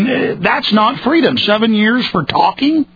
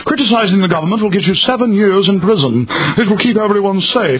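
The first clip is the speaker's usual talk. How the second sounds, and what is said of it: Calm mock English newscaster accent. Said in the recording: “they just calmly on the news go ... their newscasters always have an English accent”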